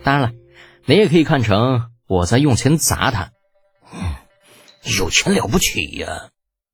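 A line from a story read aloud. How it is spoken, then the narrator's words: Eerie laugh, pause. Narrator (Chinese): 李浩笑得很是诡异，顿了顿，又道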